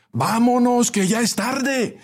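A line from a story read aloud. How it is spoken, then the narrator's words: Distant shout from back. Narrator (Spanish): gritó alguien desde los últimos asientos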